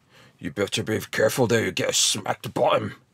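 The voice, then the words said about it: Poor Scottish accent impression. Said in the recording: “coming from Sean Connery ... That was terrible ... it's not as roguish as it really needs to be”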